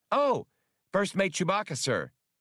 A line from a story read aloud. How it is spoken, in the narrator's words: Max replied happily